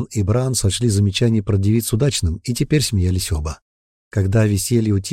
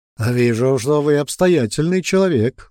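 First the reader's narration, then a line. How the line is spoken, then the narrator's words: Belly-shaking laughter. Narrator (Russian): засмеялся, тряся животом башка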